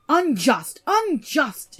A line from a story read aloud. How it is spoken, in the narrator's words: shouted Andvari